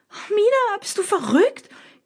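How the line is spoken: Panicked shriek. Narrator (German): kreische ich panisch

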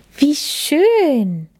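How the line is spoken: Calling out. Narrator (German): rief Lilly

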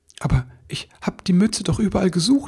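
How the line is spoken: Stammering. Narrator (German): stammelte er

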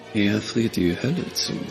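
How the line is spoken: Murmured while walking. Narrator (German): murmelte Ashlyn im Gehen

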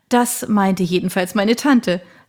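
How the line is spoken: Soft laugh. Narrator (German): lachte Janet Roberts leise

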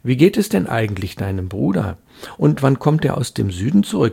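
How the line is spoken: Plain question. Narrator (German): fragte Valerie

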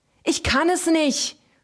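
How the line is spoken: Screamed. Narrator (German): schrie er

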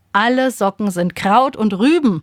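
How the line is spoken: Father calling out. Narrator (German): ruft Papa

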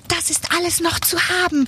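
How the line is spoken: Doll calling out. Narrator (German): ruft die Puppe

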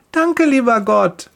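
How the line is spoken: Cheerful call. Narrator (German): ruft sie fröhlich

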